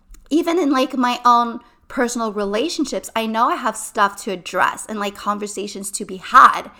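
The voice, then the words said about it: Raspy, shaky voice. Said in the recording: “my voice is still very raspy. It's still very shaky. ... I'm going to lose my voice.”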